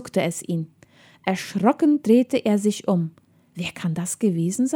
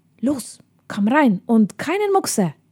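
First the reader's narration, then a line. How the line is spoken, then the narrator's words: Hissed. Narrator (German): zischte da eine Stimme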